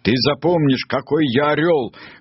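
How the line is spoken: Shouting. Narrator (Russian): кричал он

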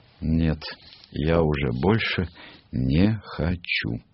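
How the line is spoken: Heavy sigh, then speaking. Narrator (Russian): тяжело вздохнув, сказала

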